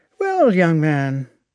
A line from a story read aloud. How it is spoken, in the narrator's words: said with a sigh